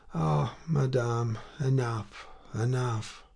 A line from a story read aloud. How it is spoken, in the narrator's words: Emma, lying on a lounge, replied as quietly as possible